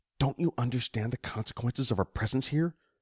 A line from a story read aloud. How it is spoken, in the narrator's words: Mei Ying whispered tersely